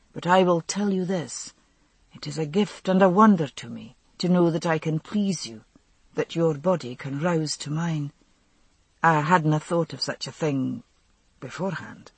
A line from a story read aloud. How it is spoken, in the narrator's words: he said quietly